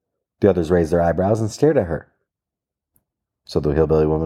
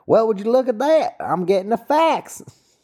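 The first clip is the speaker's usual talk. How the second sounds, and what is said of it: Put-on hillbilly accent. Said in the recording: “and yes, I will do a hillbilly accent”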